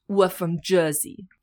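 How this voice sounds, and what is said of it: Put-on Jersey accent. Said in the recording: “a Jersey accent ... You just got to pretend you're like chewing gum and that you've got a big beehive ... That's a little better.”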